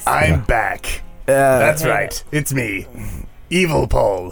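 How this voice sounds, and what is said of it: Unconvincing evil character voice. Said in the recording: “That's a bad evil voice.”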